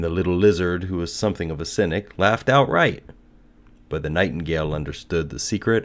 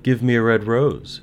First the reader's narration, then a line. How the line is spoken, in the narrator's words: she cried